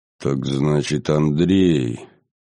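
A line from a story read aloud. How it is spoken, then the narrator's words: Muffled, hollow. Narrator (Russian): глухо как-то произнес великий князь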